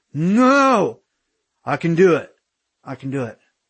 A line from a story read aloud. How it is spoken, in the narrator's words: Aaron woke up and shouted